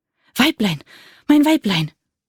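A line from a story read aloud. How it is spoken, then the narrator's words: Panting. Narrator (German): keuchend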